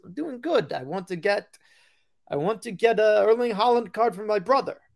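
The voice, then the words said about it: Strong put-on Italian accent. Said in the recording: “strong Italian accent.”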